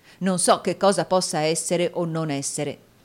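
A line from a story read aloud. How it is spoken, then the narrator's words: Plain. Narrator (Italian): disse Newman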